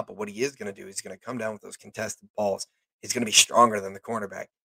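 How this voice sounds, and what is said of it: Hoarse, partly lost voice. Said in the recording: “my voice is still a little gone ... my voice was really, really gone. It's kind of coming back.”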